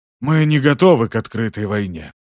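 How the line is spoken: Muffled rumble. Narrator (Russian): глухо пророкотал древник

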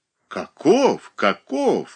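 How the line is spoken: Exclamation. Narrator (Russian): воскликнул Флегонт Матвеевич

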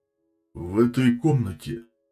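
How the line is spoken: Warrior growling. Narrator (Russian): прорычал воин на готике

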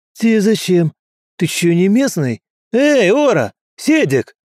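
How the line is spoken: Shout. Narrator (Russian): крикнул

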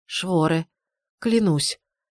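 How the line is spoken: Strained hoarse, chattering teeth. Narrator (Russian): с трудом сипло произнесла я, кляцая зубами

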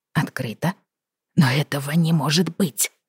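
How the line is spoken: Whispering. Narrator (Russian): зашептал он

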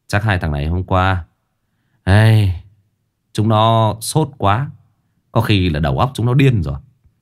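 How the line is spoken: Sighing. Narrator (Vietnamese): hai anh lính ... thở dài

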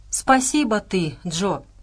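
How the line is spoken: Deep bass purr. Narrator (Russian): басовито мурлыкнул Кузу

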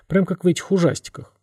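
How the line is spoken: Muttering. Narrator (Russian): пробормотала Яна

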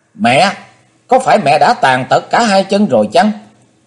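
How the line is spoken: Sudden shout. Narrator (Vietnamese): Chí Tôn bỗng hét lên

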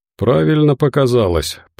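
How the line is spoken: Grim confirmation. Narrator (Russian): подтвердил Волков мрачно

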